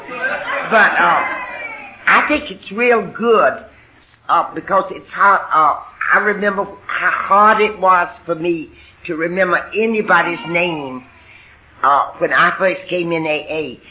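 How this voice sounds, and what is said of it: Southern US (Alabama) accent. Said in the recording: “I had the Alabama accent ... they'd hear the accent. Sometimes they'd say Georgia”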